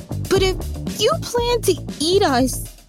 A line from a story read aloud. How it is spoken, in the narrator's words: he stammered